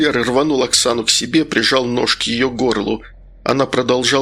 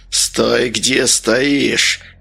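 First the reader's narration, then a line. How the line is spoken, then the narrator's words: Hoarse voice. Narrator (Russian): голос адвоката стал хриплым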